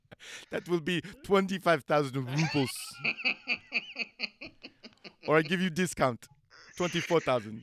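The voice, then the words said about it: Put-on Eastern European accent. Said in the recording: “I don't even know what kind of accent that was ... was Serbian. I thought it was a Serbian with a mix of Ukrainian in there ... I was going Croatian. Did I come off Serbian? It went Serbian.”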